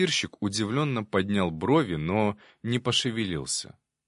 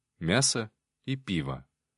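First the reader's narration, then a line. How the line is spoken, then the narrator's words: Said quietly. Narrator (Russian): негромко сказал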